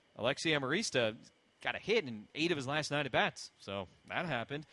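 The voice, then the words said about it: Impression of a colleague's voice. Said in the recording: “That's a pretty good impression right there. ... I feel like that's kind of what you sound like.”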